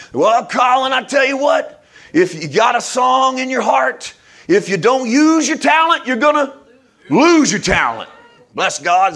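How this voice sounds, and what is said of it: Old-fashioned Southern preacher voice. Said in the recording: “I sound a little hick there because I was raised in middle America, tending towards the South ... my old-time, old-fashioned preacher voice”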